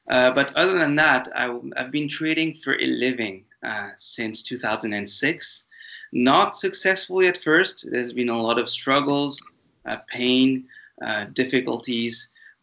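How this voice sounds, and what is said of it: French-accented English. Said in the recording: “you can hear some French intonations in my accent”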